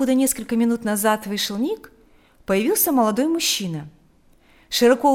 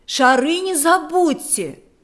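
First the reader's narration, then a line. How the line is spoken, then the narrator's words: Shouted. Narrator (Russian): крикнула женщина Лики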